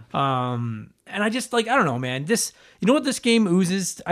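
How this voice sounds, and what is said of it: Very fast excited speech. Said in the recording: “I'm talking really fast.”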